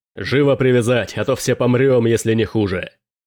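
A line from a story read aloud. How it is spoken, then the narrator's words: Roar. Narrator (Russian): взревел Дрейк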